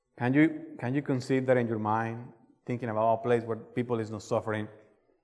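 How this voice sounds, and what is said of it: Colombian Spanish accent in English. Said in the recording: “this beautiful and exotic accent? ... that's what you get when you are not born in the U.S. ... When you are a foreigner. And the place where I came from is South America. ... I'm from Colombia.”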